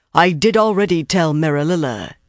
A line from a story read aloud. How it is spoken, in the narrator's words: she said in a thick Ilianar accent